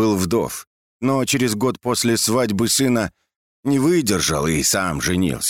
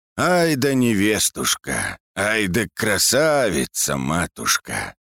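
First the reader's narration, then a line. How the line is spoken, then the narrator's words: Old man's tender mumbling. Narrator (Russian): старик только умилялся и бормотал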